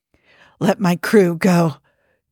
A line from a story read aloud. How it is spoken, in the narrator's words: Jim rasped